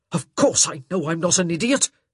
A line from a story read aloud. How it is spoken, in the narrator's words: he spat out